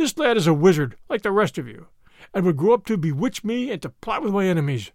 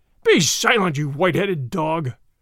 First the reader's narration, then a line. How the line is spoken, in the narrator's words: answered Din John fiercely